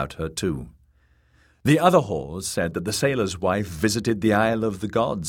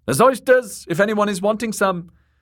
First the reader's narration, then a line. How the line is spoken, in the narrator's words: Kat said loudly